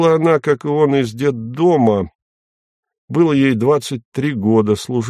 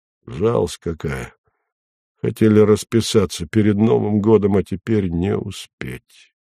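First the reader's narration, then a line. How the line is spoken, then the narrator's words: Sighing. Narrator (Russian): он вздохнул и сказал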